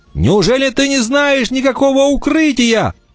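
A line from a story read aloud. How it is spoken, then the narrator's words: Breathless shout. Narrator (Russian): задыхаясь, прокричал Вольф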